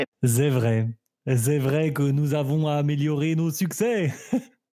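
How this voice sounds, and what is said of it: Fake German accent in French. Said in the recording (French): “tu me planques cet accent tout de suite. S'ils entendent que tu, que tu as un accent allemand”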